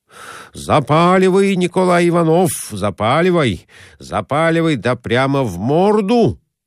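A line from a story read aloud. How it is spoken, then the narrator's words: Shouting. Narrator (Russian): кричал Конурин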